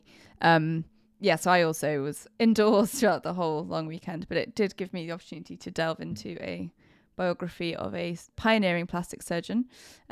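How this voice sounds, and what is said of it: Croaky, hoarse voice. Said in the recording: “as listeners can maybe tell in my voice, I'm still a little bit croaky”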